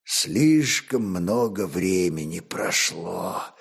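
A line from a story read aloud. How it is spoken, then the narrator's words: Prince speaking wearily. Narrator (Russian): устало покачал головой князь Моравский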